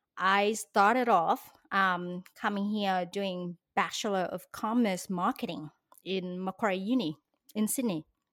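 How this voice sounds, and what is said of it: Non-Australian foreign accent. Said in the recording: “as you can tell by my accent, I was not born in Australia”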